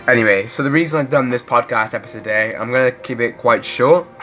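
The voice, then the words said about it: Rough voice from a cold. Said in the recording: “as you can tell by my voice, it doesn't sound the greatest. I'm sorry if I cough a few times. I've been in quite a cold for a couple of days now”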